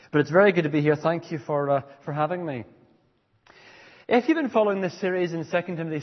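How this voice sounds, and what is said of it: Eclectic mixed accent. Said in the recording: “I grew up in Ethiopia, so my whole background is African. I then moved at the age of 13 to Belfast ... I now live in Scotland ... make my accent completely eclectic and a mess”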